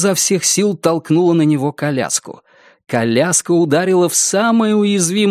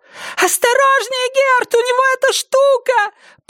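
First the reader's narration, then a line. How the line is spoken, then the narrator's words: Shrill scream. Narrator (Russian): Пронзительно завопила Синтия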